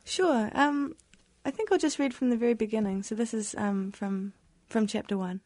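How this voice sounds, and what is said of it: New Zealand accent. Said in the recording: “you're from New Zealand. And that's the wonderful accent.”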